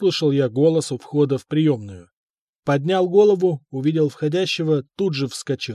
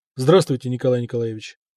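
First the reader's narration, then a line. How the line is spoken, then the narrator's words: Calm, not servile. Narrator (Russian): сказал спокойно, без прогиба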